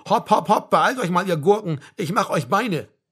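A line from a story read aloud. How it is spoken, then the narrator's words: Sergeant shouting. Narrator (German): der Hauptfeld rief dazu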